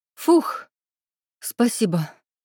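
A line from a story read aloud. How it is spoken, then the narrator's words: Breathless wheeze. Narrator (Russian): С трудом отдышавшись, просипела Соня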